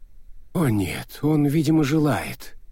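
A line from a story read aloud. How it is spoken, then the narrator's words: Sigh. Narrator (Russian): вздохнул Бент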